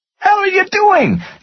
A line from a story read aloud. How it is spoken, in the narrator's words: Jody screamed